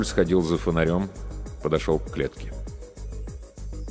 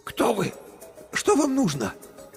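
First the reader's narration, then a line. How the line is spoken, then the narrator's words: Hoarse, tired female voice. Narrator (Russian): Голос у нее был хриплым и уставшим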